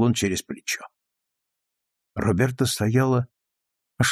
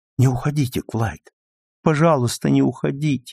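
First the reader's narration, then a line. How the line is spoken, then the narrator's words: Sudden plaintive cry. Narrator (Russian): вдруг жалобно воскликнула она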